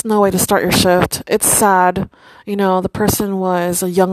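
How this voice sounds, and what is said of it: Usual voice. Nothing is said of it.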